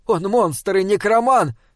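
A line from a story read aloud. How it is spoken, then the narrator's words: Young woman shouting. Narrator (Russian): крикнула принцесса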